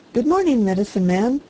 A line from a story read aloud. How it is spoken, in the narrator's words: the blue-eyed nurse met him and cried gaily